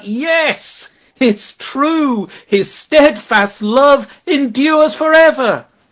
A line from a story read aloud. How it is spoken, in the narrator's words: they all shouted out